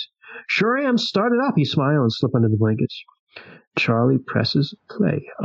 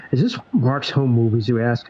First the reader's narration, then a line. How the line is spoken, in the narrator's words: Charlie laughs